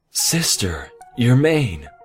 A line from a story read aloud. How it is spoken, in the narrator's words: Celestia gasped